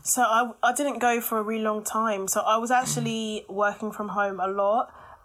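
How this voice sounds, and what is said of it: Voice affected by a cold. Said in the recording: “I've got a bit of a cold ... it's definitely a cold”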